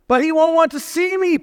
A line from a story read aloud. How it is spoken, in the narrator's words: Punchinello cried out